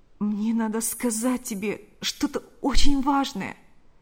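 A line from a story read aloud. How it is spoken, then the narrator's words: Pleading voice. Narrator (Russian): произнес он умоляющим голосом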